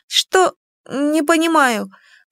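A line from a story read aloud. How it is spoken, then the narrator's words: Confused babble. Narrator (Russian): пролепетала она, растерянно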